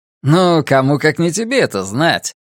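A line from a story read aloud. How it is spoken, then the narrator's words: Laughing. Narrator (Russian): Уайт рассмеялся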